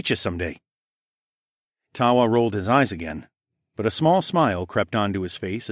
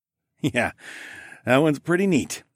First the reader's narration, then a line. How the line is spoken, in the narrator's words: I chuckled